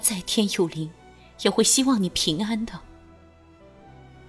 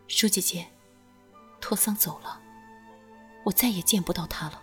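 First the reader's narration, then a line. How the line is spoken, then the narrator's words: Low voice, laughing. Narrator (Chinese): 君玉笑了起来，低声道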